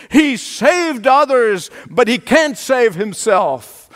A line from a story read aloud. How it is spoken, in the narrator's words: Jesus cried out with a loud voice